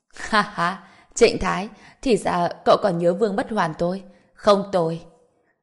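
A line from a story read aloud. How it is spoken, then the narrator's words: Loud laugh, then speaking. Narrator (Vietnamese): Ông Vương Bất Hoàn kia lập tức cười lớn hai tiếng, nói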